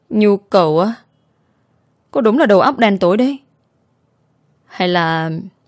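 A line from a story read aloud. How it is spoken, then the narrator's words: Laughing. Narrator (Vietnamese): Lê Đình Long bật cười lên tiếng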